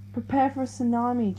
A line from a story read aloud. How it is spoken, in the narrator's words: Jessica yelled into the mic